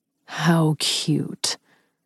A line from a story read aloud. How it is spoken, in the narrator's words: Ryder growled